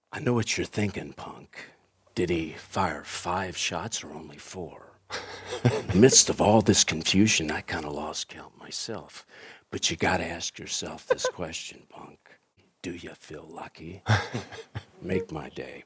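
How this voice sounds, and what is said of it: Clint Eastwood impression. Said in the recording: “So I did this Clint Eastwood impersonation.”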